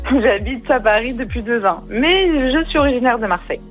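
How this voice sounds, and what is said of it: Marseille accent. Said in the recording (French): “Vous avez gardé l'accent de Marseille?”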